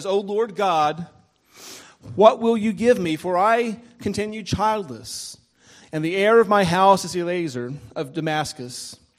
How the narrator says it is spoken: Abraham cries out to him ... and he says

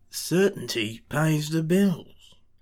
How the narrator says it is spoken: Crowley mumbles

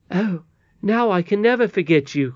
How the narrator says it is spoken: cried Curdie

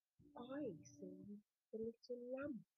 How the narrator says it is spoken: she said softly

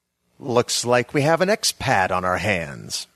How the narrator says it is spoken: said a sneering voice I recognized as Adam Kilkenny

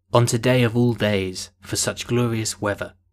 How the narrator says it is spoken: he said

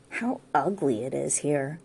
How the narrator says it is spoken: murmured

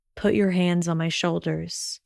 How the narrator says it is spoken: he directed quietly

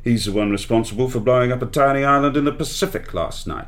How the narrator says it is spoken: grumbled M

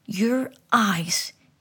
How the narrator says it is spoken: yelled

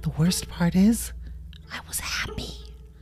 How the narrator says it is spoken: She leaned in close and whispered in Bunny's ear

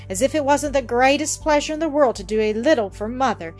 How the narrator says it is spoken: exclaimed the latter, half indignantly

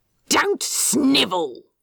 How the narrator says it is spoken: snapped

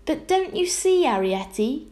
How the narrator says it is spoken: gasped Homily

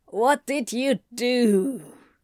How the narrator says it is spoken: Anthony growled

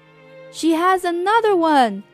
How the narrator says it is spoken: he hollered

